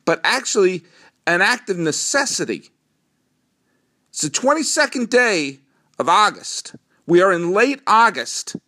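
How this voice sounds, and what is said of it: Strong New England accent. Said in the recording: “my New England accent come out very strongly when I say August”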